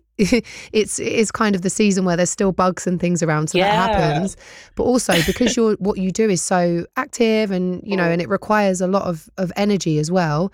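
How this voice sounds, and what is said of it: Slightly strained voice. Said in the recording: “my voice is a little bit strained now, but I lost my voice at the end of last week”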